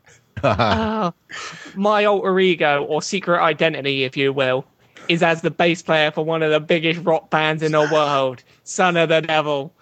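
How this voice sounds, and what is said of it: Put-on Cockney accent. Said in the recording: “I've got to do this in a Cockney voice ... he's in the Cockney version of Cradle of Filth”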